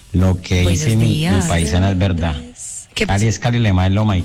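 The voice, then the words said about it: Lovely regional Spanish accent. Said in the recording (Spanish): “ese acento tan lindo”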